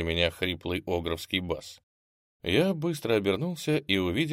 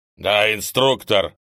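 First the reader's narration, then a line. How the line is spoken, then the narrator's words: Barking. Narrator (Russian): тут же рявкнул Огр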